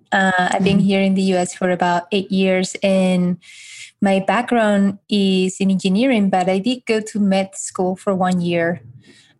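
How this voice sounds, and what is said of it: Spanish accent. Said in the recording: “this accent is from Spain”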